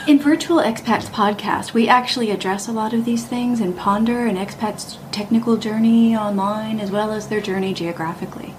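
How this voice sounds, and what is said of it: Polished radio announcer voice. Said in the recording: “That was my radio voice.”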